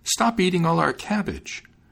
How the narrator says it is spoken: cried the maiden to the hare

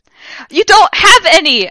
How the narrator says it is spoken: I yelled madly

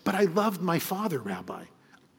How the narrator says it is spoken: with tears in his eyes and said

